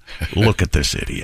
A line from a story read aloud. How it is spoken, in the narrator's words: at least three of the Cowboys mumbled under their breath